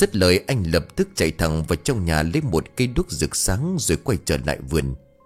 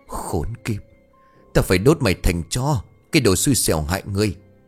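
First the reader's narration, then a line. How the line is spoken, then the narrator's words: Furious hiss through teeth. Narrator (Vietnamese): Anh rít qua kẽ răng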